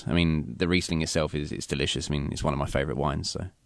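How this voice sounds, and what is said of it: English London accent. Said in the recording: “obviously the accent, you hail from an island ... I'm from England, from London.”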